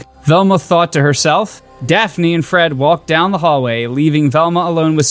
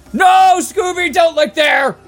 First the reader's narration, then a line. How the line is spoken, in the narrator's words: Velma shouted